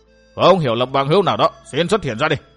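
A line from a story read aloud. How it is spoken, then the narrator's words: Very loud shout. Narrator (Vietnamese): Trịnh Nguyên Bình quát lên thật to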